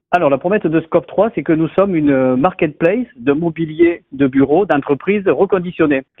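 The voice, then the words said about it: Southern French Montpellier accent. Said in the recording (French): “avec un accent euh, bien de chez moi, de Montpellier ... Avec un bel accent du Sud.”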